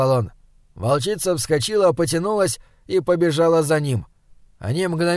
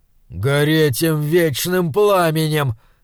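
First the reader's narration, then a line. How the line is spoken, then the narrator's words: Hissing. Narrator (Russian): прошипел брат Хенквиск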